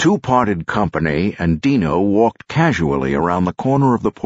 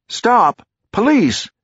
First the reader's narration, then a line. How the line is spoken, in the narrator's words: Rosie shout